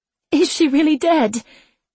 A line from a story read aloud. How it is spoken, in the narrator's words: Anne asked, her voice high and broken